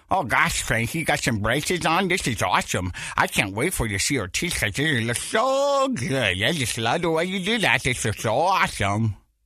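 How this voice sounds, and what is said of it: Imitates talking with braces. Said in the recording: “my Brace impression ... I'm going to talk like this”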